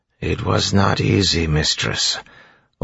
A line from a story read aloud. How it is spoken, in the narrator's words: Orsure said flatly